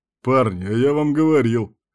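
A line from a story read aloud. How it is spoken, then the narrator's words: Short chuckle. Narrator (Russian): хохотнул Кирк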